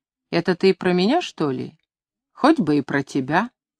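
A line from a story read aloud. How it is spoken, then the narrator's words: Quiet, calm question. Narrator (Russian): Человек, похожий на приказчика, тихо и спокойно спросил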